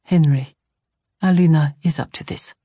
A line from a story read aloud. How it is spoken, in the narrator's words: Tomas said flatly